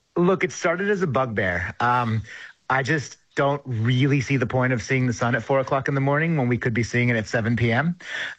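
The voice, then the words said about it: American accent. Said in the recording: “You can probably hear in my accent, I'm originally from the United States”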